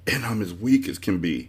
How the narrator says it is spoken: he gasped

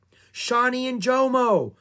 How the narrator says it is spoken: cried Annie

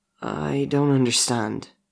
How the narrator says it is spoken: Nathan replies shakily

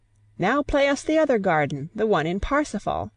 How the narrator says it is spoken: Cecil, sharing the discontent, called out

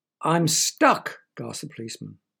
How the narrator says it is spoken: barked the dog

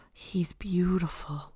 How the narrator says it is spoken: Joseph breathed

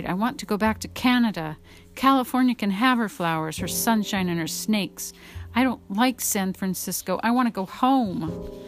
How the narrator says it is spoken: cried

